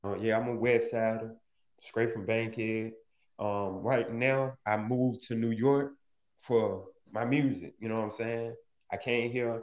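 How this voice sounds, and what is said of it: Atlanta, Georgia accent. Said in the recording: “I'm from Atlanta, Georgia, born and raised... You can hear it in my accent”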